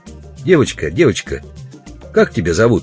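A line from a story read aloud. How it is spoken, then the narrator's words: Plain. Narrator (Russian): спросил Удалов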